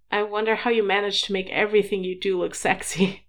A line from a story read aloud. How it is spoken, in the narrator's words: Harry giggled